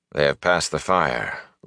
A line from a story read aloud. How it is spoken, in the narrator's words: Lan said calmly